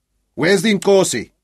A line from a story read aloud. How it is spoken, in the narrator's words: he shouted